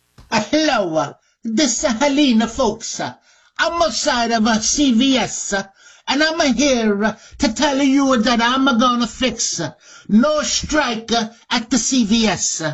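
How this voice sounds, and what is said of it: Put-on Italian accent. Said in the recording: “Is ... got an Italian accent now”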